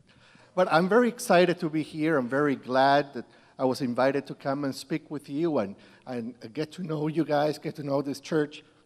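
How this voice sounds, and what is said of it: Slight Peruvian accent. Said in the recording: “I am from Peru, so if you notice a little accent, it is not the microphone”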